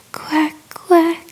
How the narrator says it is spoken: I moaned

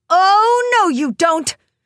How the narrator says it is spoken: shouted Rainbow, starting to get angry

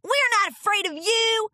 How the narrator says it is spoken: shouted Rainbow Dash

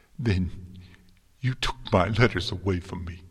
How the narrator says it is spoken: Twilight sobbed

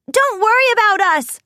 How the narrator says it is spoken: cried

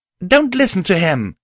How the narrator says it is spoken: I shouted angrily

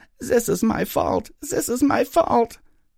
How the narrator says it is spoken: wailed

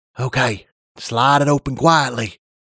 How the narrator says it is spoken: I whispered as silently as I could

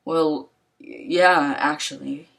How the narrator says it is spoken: said nervously

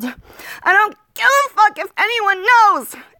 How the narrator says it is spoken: I was in such hysterics that I yelled

